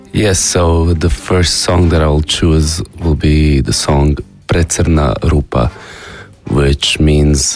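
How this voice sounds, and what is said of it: Voice with a cold. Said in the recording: “I have a bit of a cold”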